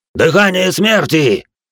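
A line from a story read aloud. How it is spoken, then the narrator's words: Shouted. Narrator (Russian): выкрикнул жрец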